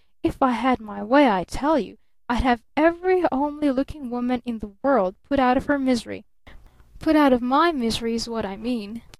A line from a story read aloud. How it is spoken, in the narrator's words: he threatened with hissing emphasis